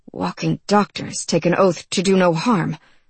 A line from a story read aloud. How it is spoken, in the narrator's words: Tygo muttered